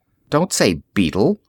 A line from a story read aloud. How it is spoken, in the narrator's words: Tony muttered